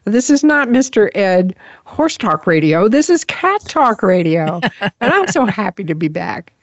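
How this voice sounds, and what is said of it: Hoarse voice. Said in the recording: “I'm a little hoarse today.”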